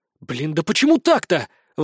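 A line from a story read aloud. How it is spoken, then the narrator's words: Frustrated exclamation. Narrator (Russian): воскликнул я, когда ознакомился с выкладками Расха и все их забраковал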